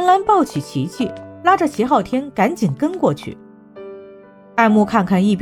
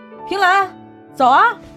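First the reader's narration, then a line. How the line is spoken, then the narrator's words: Loud shout. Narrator (Chinese): 他大声喊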